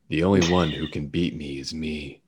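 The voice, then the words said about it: Put-on sexy voice. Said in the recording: “let me get my sexy voice”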